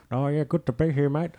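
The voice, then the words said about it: Put-on ethnic character voice. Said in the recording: “I wasn't doing a racist voice this whole time. ... It was my friend.”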